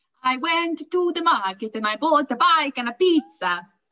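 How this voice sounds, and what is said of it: Put-on Italian accent. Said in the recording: “Italian chef. Channel your inner Italian chef ... I apologise for causing any upset by the accent that's about to come out of my mouth.”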